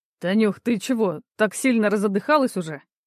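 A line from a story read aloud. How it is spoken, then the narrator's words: Laughing. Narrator (Russian): Мужчина посмеялся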